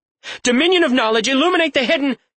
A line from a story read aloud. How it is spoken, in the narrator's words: she yelled